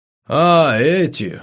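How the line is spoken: Exhaled words. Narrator (Russian): выдохнул Николай

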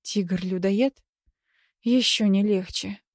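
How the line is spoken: Moaning. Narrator (Russian): простонала

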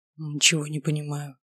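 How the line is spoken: Whispered. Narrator (Russian): прошептал он

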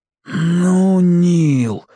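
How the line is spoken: Stunned exhale. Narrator (Russian): ошалело выдохнул Борис

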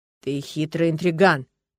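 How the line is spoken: Grumbling. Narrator (Russian): проворчал

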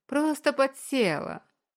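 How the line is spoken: Short laugh. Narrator (Russian): хохотнула Чайка, закатив горящие от злости глаза

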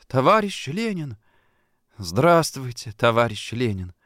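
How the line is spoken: Trembling, tender, happy babble. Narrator (Russian): Это было такое счастье, что он прерывающимся голосом с непередаваемой нежностью пролепетал

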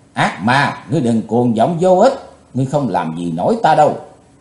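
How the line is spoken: Cold shout. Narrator (Vietnamese): Chí Tôn lạnh lùng thét

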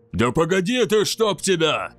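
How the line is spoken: Yell. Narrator (Russian): завопил Кейн

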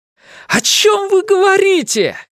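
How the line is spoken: Shouting. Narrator (Russian): крикнул Ларри

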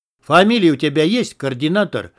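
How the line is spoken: Rude interruption. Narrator (Russian): грубо оборвал его подполковник

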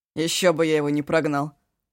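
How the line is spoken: Amused snort. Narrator (Russian): хмыкнул Эшу

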